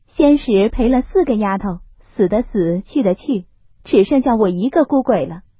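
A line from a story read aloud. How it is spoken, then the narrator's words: Laughing. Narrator (Chinese): 平儿笑道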